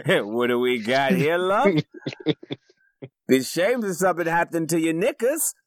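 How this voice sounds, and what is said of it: Put-on Cockney accent. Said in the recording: “he has kind of a Cockney accent”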